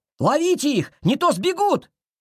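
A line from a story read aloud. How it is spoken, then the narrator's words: Shouting. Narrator (Russian): крикнул Тойн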